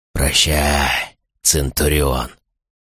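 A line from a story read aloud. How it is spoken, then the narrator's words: Hoarse whisper close by. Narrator (Russian): прозвучал у самого его уха хриплый шепот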